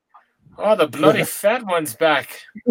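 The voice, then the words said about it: Attempted Irish accent, sounds English. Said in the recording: “Is that the right accent? ... Who says bloody? Is that like English? ... that was not super Irish.”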